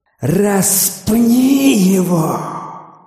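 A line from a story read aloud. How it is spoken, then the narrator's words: Crowd shouting. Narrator (Russian): они закричали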